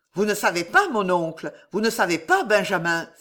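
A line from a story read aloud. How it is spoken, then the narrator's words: Exclaiming. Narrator (French): s'écria-t-il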